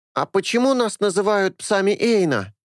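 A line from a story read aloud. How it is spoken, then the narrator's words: Loud question from teenage boy. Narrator (Russian): Парень лет 13, громко спросил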